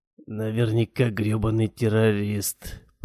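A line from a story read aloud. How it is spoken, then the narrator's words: Mumbling. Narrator (Russian): пробормотал человек в гавайской рубашке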